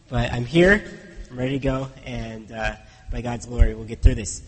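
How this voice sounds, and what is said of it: Weak, congested voice. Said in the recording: “my voice is not very much here ... Just my voice is going, and I've had some sinus congestion”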